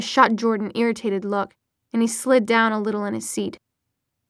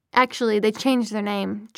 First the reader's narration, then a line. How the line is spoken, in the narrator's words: Jordan said